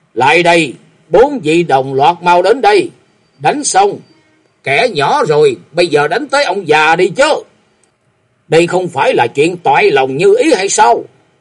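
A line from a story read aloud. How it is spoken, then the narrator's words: Loud shout. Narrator (Vietnamese): ông hét to lên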